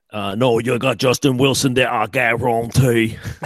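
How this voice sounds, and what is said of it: Put-on Cajun accent. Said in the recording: “that might have been the most accurate Cajun accent I've ever heard in my entire life right there”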